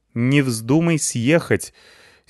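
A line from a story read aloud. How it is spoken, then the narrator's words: Angry grandmother. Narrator (Russian): сердито сказала мне бабуля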